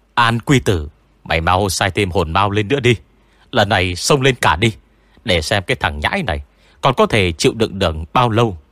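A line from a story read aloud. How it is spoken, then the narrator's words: Quick yell. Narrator (Vietnamese): có người nhanh chóng gào lên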